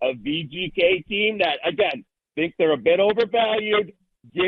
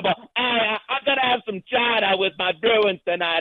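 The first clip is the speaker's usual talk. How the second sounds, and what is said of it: Put-on Boston accent. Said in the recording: “I'm actually not from Massachusetts ... What that accent actually was. Have some chowder with my Bruins”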